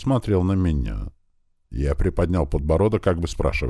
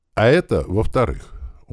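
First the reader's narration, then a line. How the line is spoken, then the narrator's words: Heavy sigh. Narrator (Russian): он тяжело вздохнув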